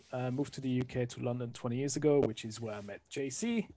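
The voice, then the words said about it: French accent. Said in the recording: “I'm originally from France, as you can hear from the accent.”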